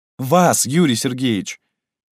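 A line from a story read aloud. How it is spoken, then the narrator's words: Exclaimed. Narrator (Russian): воскликнула Наташа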